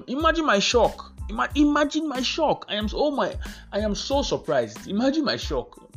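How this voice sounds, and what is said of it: Sarcastic mock-surprised delivery. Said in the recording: “Being sarcastic, obviously.”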